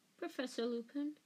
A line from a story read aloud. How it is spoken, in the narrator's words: said Hermione timidly